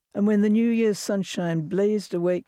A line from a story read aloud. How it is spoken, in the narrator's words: they shouted, reveling